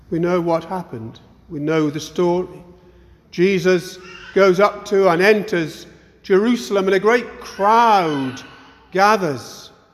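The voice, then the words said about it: Northeast English accent. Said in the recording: “I come originally from the northeast, which I'm sure is a great surprise to you. I'm sure it doesn't show in any way in my accent.”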